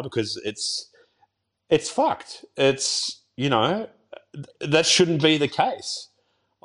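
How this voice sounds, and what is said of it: Choked up, emotional voice. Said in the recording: “getting all choked up”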